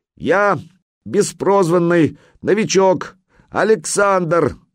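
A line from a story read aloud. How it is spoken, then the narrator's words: Yelling. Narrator (Russian): заорал Санек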